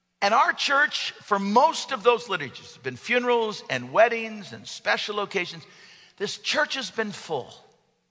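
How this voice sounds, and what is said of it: Slightly hoarse voice. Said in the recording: “I'm a little hoarse, because I talk pretty loud”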